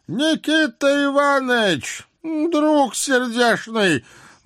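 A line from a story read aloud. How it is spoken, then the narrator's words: Muffled voice from above. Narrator (Russian): глухо раздалось откуда-то сверху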